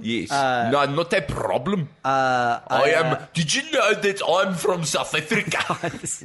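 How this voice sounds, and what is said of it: Strong put-on South African accent. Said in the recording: “The accent is powerful. ... Power of one ... accent.”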